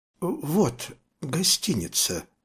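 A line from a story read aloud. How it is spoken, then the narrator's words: Timid. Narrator (Russian): сказал робко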